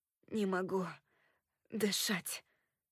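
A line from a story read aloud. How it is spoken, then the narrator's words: Hoarse wheeze. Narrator (Russian): прохрипел он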